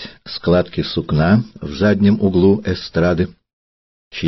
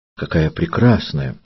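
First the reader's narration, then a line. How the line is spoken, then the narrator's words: Quiet. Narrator (Russian): тихо ответила она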